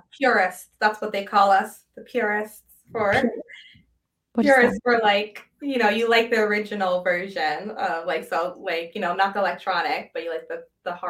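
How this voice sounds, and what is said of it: New Jersey accent. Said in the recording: “my Jersey accent will come out sometimes”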